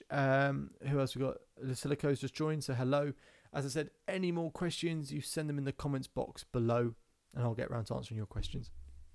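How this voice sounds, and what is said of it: British accent from near London. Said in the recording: “I'm from the UK, so I'm from near London. Hopefully you can tell by the accent. ... Pretty British.”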